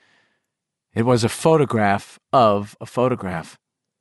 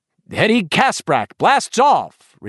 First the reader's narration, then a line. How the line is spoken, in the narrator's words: Richie cried cheerfully